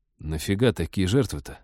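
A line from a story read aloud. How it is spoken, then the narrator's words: Embarrassed grumbling. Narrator (Russian): смущенно проворчал Тед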